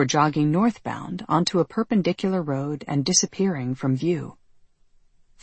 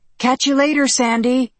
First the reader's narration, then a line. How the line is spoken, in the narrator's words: yelling out